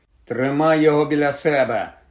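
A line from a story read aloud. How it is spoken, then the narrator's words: Irritated grumble. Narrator (Ukrainian): роздратовано буркнув Рон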